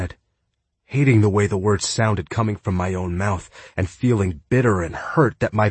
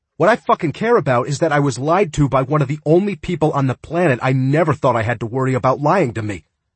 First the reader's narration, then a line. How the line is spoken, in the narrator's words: I said, my voice rising along with my temper